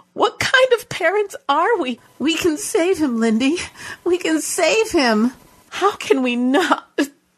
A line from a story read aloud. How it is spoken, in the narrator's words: She choked on the final word and sobbed